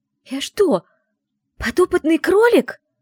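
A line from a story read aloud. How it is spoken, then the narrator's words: Exclamation. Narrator (Russian): воскликнула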